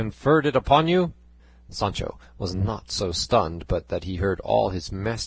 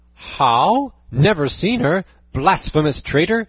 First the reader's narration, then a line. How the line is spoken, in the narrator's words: exclaimed Don Quixote